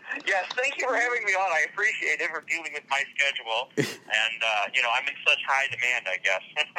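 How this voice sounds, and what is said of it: Slight Canadian accent. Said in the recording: “I do kind of have a Canadian accent. I've been told by people with other accents”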